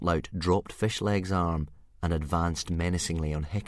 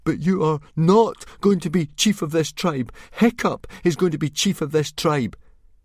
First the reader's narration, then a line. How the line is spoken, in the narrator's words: Fishlegs went very white in the face, but he still managed to gasp out